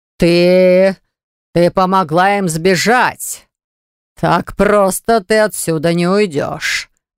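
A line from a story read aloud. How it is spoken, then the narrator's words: Growled. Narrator (Russian): рыкнул король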